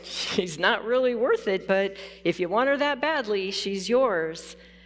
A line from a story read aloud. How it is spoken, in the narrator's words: The owner laughed and said